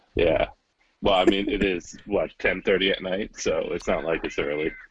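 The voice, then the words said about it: Tired, exhausted-sounding voice. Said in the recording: “you sound exhausted”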